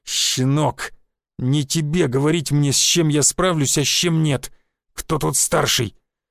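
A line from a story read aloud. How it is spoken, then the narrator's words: Hiss. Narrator (Russian): Прошипел я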